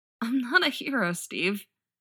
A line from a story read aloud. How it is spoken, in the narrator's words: choked out